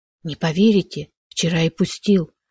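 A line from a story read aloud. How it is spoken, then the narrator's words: Whispered confession. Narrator (Russian): шепотом признался Шишков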